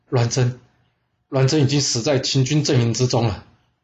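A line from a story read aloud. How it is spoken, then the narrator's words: Sighing. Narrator (Chinese): 范鞅叹了口气说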